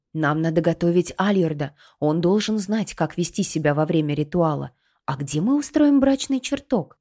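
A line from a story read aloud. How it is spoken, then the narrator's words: Curt sharp reply. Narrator (Russian): коротко и резко ответила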